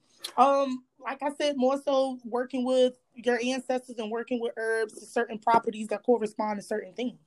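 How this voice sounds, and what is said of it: Strong Southern American accent. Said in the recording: “your accent is so strong. I would like guess like you're from Louisiana.”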